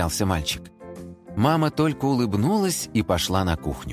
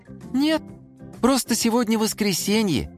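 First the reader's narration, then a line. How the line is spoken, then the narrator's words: Cheerful reminder. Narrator (Russian): весело напомнила Симка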